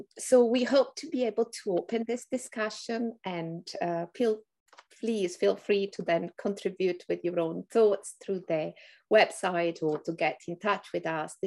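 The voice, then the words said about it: Italian accent with English influence. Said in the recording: “Probably from my accent, you have detected that I am sort of Italian and sort of been trained in England”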